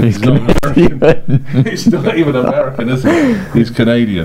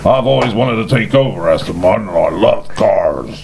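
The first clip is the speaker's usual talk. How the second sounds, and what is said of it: Put-on big American accent. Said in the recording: “in my big American voice”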